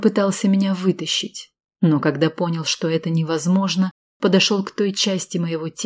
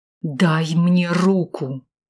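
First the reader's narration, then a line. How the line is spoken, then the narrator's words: Through gritted teeth. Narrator (Russian): сквозь зубы процедил он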